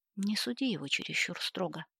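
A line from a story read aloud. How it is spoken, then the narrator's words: Mother's advice. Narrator (Russian): посоветовала мать Джастина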